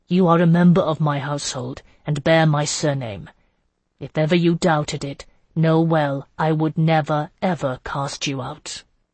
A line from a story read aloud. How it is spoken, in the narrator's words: he said instead, his tone sombre